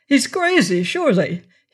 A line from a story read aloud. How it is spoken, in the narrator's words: he cried